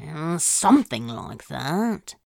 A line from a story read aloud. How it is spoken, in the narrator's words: Crowley mumbled, not liking the feeling of being so thoroughly examined